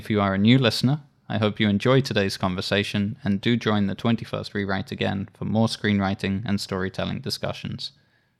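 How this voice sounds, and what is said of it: English accent. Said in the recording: “I really like your accent. ... affected by the fact I've lived outside of the UK for quite over about 10 years now ... English people saying I don't sound English anymore ... in America, I do come across as very English.”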